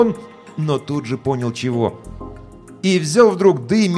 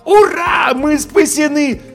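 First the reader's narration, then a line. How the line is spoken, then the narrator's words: Yelling. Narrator (Russian): завопил я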